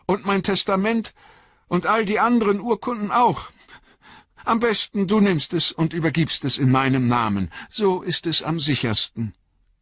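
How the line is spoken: Called out. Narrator (German): rief Bilbo

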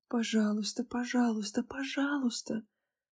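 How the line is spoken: Frenzied chant-like whisper. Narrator (Russian): Иступленно шептала я, словно повторяла заклинание

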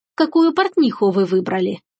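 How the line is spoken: Insinuating, ingratiating question. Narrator (Russian): вкрадчиво спросил кот

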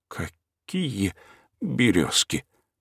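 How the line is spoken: Timid babbling. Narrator (Russian): пролепетал кукушка

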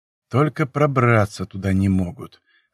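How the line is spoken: Sighed. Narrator (Russian): вздохнул я

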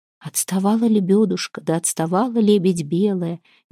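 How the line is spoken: Soft singing. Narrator (Russian): негромко запела Вербина

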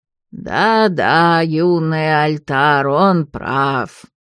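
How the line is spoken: Creaky old voice. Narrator (Russian): проскрипел старый Альтар

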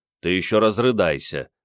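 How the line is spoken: Grumbling. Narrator (Russian): проворчал Андрей

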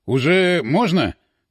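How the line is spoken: Stern question. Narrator (Russian): строго спросил ротный

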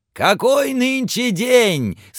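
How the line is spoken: Shouting down. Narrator (Russian): свесившись вниз, крикнул Скрудж

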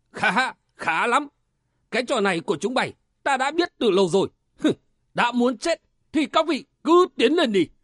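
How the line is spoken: Leader's loud shout. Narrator (Vietnamese): Tên cầm đầu bọn áo vàng quát lớn

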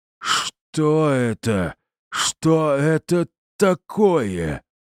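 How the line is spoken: Roaring. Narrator (Russian): взревел он

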